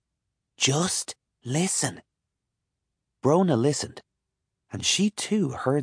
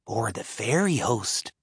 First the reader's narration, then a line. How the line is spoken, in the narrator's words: Brona whispered